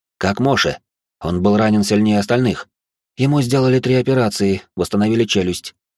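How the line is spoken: Plain. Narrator (Russian): ответила она

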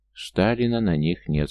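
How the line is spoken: Plain. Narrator (Russian): сказала Инга

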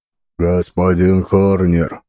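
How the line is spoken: Deep booming bass. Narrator (Russian): прогудел он басом

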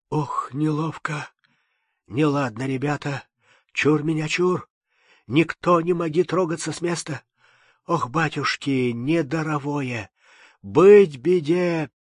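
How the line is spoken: Breathless, barely intelligible rasp. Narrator (Russian): задыхаясь, прохрипел едва внятным голосом

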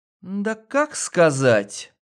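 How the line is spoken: Unenthusiastic drawl. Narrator (Russian): Протянула она без восторга

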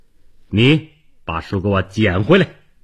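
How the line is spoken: Furious shout. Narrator (Chinese): 王明芳怒不可遏，叫道

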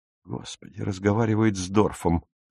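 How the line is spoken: Whisper. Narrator (Russian): шепнул он

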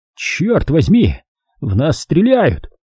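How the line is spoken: Yelling. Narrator (Russian): заорал Брабек

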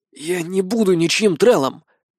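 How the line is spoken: Hoarse rasp. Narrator (Russian): прохрипел

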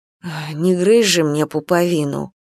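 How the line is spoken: Muttering. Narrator (Russian): бормотала Нюраня

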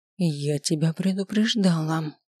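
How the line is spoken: Through gritted teeth. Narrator (Russian): процедила я

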